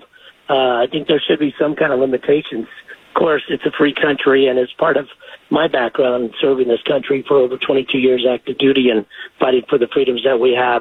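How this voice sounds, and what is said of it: Hoarse voice from a cold. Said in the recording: “excuse my voice, I'm getting over a cold.”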